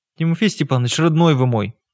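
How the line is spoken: Weary plea. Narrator (Russian): устало попросила Маргарита Тихоновна

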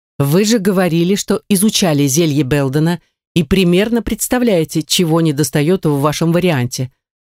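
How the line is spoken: Stern interjection. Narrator (Russian): вмешался Ривот таким строгим тоном

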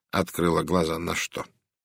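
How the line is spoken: Soft, sympathetic. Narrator (Russian): Голос Пуаро теперь звучал мягко, сочувственно

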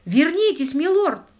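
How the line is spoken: Terrified shout. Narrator (Russian): в ужасе закричал камердинер

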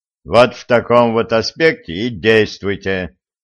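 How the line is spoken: Stern speech. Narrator (Russian): строго сказал

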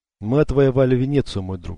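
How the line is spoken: Sigh. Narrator (Russian): вздохнул он

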